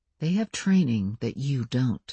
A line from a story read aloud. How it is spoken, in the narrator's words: said the lawyer in a very quiet voice